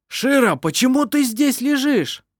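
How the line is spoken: Grandfather shouting. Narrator (Russian): кричал ее дед

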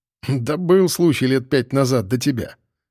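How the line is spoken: Chuckling into fist. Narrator (Russian): хохотнул в кулак дежурный

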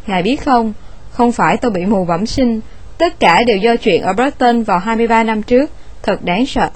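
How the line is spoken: Long rambling speech. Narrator (Vietnamese): người mù đó nói một thôi một hồi

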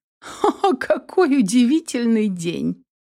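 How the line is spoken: Exclaimed with a laugh. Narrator (Russian): хохотнув, воскликнула Инесс

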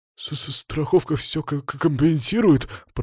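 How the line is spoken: Babbling. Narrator (Russian): пролепетал засранец

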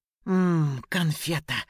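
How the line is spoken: Growled. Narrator (Russian): прорычал

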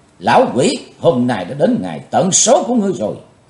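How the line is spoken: Low, quiet shout. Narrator (Vietnamese): Chí Tôn trầm lặng hét lên

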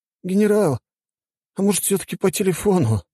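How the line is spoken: Whining plea. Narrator (Russian): проскулил адъютант

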